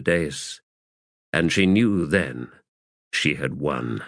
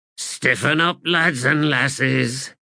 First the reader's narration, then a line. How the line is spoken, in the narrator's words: growled Brevity